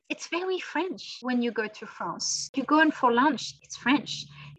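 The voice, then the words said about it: French-accented English. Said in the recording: “this accent, probably we shouldn't lose it, but it's more about working on the pronunciation ... we should not lose this accent”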